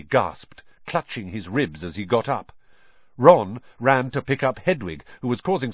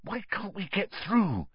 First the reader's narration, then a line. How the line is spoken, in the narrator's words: Harry hissed to Ron